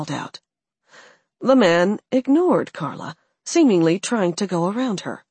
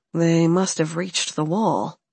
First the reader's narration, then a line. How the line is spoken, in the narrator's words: Alex muttered